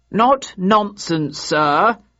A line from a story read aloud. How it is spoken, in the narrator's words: replied the speaker in a clear voice